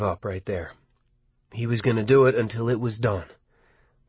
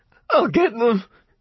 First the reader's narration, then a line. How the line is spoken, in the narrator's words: he shouted thickly through the sobs